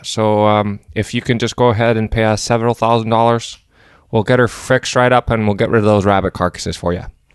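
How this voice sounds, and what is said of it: Strong put-on Canadian accent. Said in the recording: “I just monologued a, a ... a pretty strong Canadian accent there”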